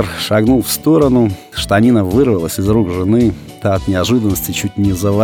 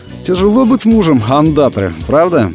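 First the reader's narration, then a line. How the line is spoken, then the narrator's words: Cheerful. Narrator (Russian): весело так произнес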